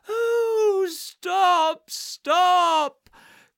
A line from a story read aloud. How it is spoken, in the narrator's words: cried the mole in ecstasies